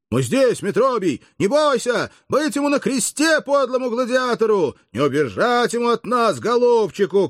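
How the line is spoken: Crowd shouting together. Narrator (Russian): кричали разом рабы и граждане

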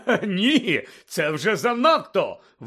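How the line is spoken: Exclaiming, holding back laughter. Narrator (Ukrainian): вигукнув Лудо Бегмен, ледве тамуючи сміх

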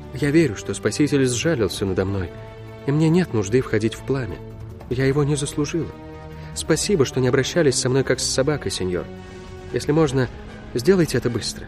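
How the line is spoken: Whispered, self-persuading. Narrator (Russian): словно убеждая саму себя, прошептала

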